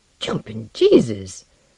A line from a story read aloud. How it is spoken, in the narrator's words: Barry muttered in English